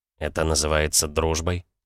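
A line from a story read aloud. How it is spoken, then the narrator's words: Quiet AI question. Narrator (Russian): тихо спросила нейросеть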